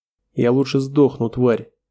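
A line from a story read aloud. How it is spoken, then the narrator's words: Growling. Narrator (Russian): Зарычав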